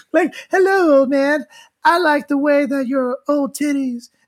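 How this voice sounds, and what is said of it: Imitates another person's voice. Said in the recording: “do a different voice ... Now she sounds like Michael Jackson.”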